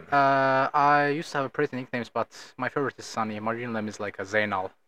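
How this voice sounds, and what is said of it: Azerbaijani accent. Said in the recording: “has an accent. ... Azerbaijan.”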